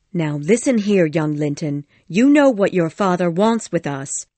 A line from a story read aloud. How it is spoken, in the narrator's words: she said firmly